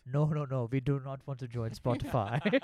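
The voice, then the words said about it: Put-on accent of Arab man in Sweden. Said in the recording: “What accent was that? ... It was an Arab guy in Sweden.”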